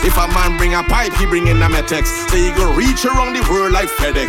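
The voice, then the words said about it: Trinidadian dialect, rapped. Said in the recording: “I coming with me Trini lingo ... I ain't changing my dialect, my patwa”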